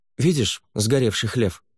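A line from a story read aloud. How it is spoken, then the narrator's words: Irritated command with sigh. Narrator (Russian): Фэй вздохнула, раздраженно тряхнула головой и скомандовала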